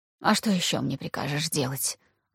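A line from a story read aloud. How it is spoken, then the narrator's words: Very quiet, unusually soft. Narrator (Russian): Очень тихо, в противовес своей обычной манере общения, спросила она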